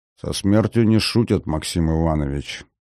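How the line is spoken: Quiet older man. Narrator (Russian): тихо произнес солдат уже в возрасте

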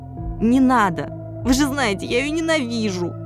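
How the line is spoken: Sobbing. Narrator (Russian): Матильда разрыдалась

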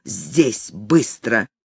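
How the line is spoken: Hoarse after laughing. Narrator (Russian): Он засмеялся, а потом сказал хрипло

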